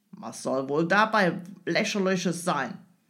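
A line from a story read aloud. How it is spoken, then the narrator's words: Grim growl. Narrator (German): knurrte der Engländer immer noch grimmig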